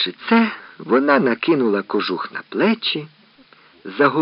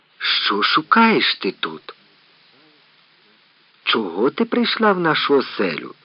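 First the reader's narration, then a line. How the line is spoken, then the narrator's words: Stern icy question. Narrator (Ukrainian): суворо спитав крижаний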